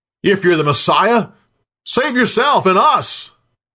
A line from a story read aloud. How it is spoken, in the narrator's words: One of the criminals hanging next to Jesus yelled